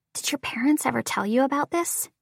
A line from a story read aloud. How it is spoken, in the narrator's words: I whisper